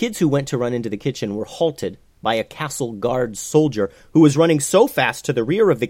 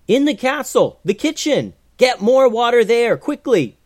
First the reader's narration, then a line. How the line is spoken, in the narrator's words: Joseph yelled